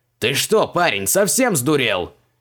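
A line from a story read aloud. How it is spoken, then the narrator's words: Yelling. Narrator (Russian): завопил он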